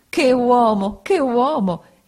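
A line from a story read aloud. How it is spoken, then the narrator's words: Exclaimed. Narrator (Italian): esclamò Peggotty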